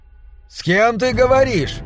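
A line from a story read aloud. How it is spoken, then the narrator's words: Shouting from another room. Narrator (Russian): закричал Мортимер из гостиной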